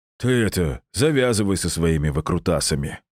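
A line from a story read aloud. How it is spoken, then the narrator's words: Laughing right in face. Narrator (Russian): рассмеялся Владимир Петрович чуть ли не в лицо мне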